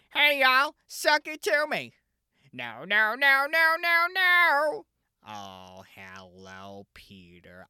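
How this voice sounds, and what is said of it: Imitation of cartoon character Cleveland Brown. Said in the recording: “I can't do a great Cleveland Brown accent”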